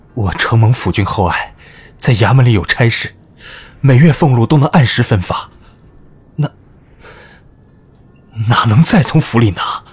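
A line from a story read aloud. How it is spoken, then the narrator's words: Choked with emotion. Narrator (Chinese): 高仲雄一时间心潮起伏，哽咽道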